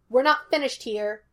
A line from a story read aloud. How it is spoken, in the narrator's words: Henry snapped